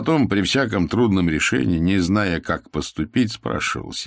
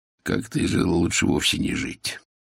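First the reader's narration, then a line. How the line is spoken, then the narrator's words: Whisper. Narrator (Russian): Игорь шепнул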